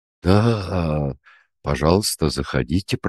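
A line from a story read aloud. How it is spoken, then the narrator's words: Mumbled. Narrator (Russian): пробормотал Андрей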